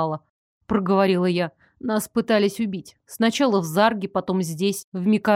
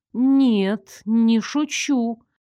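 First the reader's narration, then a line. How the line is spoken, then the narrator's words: Slow. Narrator (Russian): Медленно проговорила я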